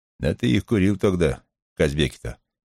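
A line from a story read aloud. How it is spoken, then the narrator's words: Plain question. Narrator (Russian): спросил старший брат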